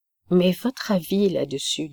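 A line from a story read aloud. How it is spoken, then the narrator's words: Plain question. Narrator (French): demanda Dieudonné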